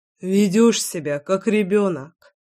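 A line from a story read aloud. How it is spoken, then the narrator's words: Sighing. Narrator (Russian): Вздохнул Алексей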